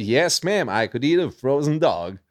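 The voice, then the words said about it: Put-on American accent. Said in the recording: “can you do an American accent? ... most American accent I could do that”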